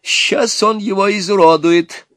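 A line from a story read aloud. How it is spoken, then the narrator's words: Joyful father. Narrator (Russian): радостно сказал отец жениха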